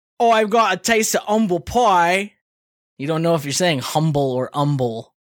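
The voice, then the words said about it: Put-on Cockney accent. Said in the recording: “Cockney accent ... how great that accent was right there ... I felt not like, without sarcasm at all, I felt like I was there”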